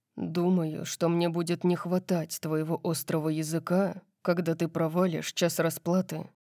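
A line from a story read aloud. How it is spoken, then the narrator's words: Muttered. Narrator (Russian): пробормотал он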